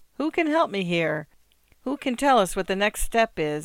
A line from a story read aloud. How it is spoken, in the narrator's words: Nowicki would say in her bright, hopeful voice